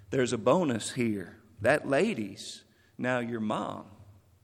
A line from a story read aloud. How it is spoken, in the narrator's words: Keith whispered